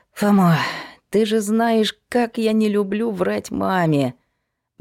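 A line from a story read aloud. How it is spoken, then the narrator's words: Sighing. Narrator (Russian): Вздохнула Сашка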